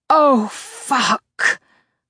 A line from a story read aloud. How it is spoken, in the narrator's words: I groan